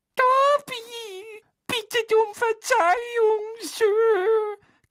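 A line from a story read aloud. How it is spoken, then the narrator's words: Timid squeak, muffled. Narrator (German): quiekte Dobby verschüchtert, presste die langen Finger auf den Mund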